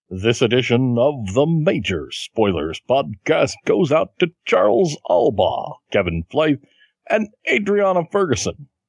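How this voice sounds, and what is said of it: Opening narration style impersonated voice. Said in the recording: “I'm not sure who I'm doing an impersonation of, but it sounds good for an opening narration”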